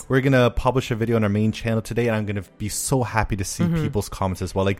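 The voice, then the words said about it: Hoarse, partly lost voice. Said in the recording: “my voice is a little bit gone, I sound a lot sexy today, don't I? Even though my voice is a little bit gone”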